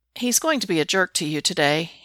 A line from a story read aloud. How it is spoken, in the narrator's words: he says, his tone matter-of-fact